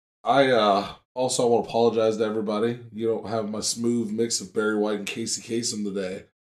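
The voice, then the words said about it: Sick, rough-sounding voice. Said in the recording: “I am very sick, so it sounds very awful... my voice sounds terrible”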